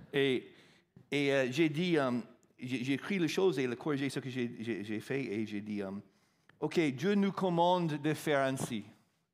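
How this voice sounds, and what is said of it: Non-native French accent. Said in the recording (French): “Je suis arrivé en France à l'âge de 36 ans, je ne parlais pas un mot de français. C'est pourquoi j'ai toujours cet accent.”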